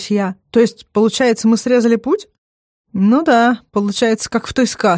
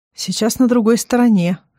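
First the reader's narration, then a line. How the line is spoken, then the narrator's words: Strangely tender voice. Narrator (Russian): говорит Азамат странным ласковым голосом, как будто о маленьком ребенке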